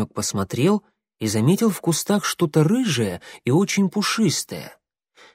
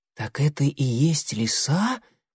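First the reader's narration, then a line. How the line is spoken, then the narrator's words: Whisper. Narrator (Russian): прошептал он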